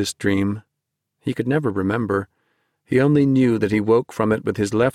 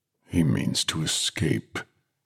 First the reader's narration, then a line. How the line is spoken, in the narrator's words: he muttered